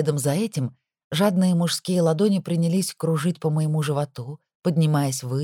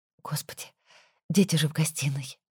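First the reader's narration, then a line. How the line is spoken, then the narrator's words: Quiet breathless exclamation. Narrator (Russian): выдохнула я тихо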